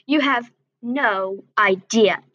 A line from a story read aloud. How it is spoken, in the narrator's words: spat